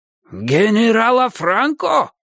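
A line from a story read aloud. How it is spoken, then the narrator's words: Sharp shout. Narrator (Russian): выкрикнул Сталин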